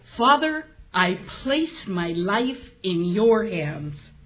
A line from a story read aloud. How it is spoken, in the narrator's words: Jesus called loudly